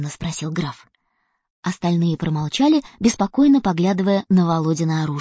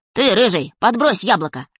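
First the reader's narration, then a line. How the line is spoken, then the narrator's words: Sharp. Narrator (Russian): резко сказал Володя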